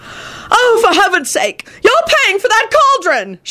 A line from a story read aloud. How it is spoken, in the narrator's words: shouted the tall, white-haired wizard